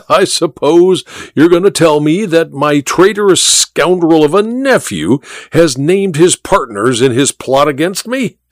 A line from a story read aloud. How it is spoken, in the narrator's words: said the Duke with a harsh laugh